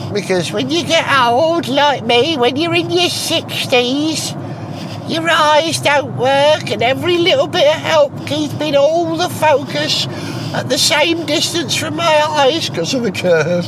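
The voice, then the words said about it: Silly put-on voice. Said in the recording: “silly voice”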